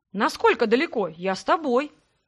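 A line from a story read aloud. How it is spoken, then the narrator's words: Young man's enthusiastic exclamation. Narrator (Russian): с воодушевлением воскликнул парень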